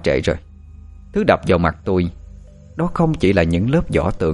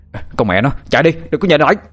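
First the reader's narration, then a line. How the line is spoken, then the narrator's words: Shouting. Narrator (Vietnamese): Nó hét lên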